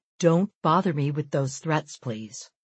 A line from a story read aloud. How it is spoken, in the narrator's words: Respond as clearly and as calmly as you possibly can